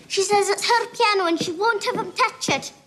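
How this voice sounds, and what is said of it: Scottish accent. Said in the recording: “that was a Scottish accent”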